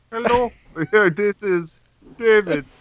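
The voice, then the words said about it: Put-on Indian accent. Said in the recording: “He'd have an Indian accent”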